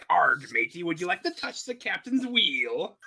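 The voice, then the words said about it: Pirate character voice. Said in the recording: “arguing in a pirate voice”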